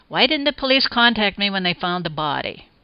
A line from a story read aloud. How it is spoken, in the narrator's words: I irritably addressed no one in particular